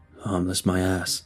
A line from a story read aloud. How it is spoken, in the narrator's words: he grumbled